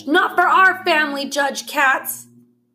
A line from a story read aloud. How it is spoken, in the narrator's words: is obviously just as outraged, and he yells